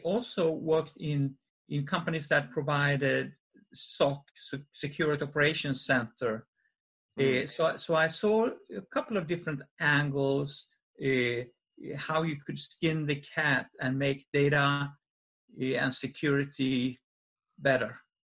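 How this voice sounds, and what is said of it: Swedish accent. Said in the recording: “you can obviously tell by your accent that you were foreign born ... leave Sweden”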